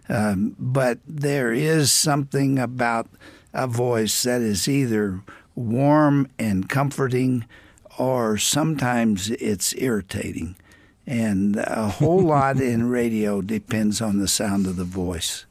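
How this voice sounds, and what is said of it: Slightly scratchy voice. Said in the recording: “my voice is a little scratchy today”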